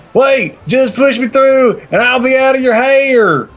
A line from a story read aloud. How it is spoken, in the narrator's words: He yelled as he continued to try to push himself through the small window